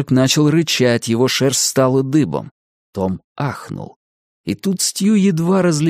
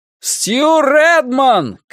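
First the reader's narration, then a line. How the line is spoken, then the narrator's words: Shouted into darkness. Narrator (Russian): крикнул он в темноту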